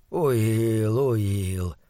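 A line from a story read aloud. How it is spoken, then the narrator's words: Muttering. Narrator (Russian): бормотал он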